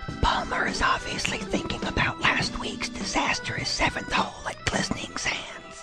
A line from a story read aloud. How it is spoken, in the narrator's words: the announcer who would whisper